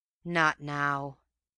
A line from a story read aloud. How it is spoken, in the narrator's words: came with a grateful sort of sigh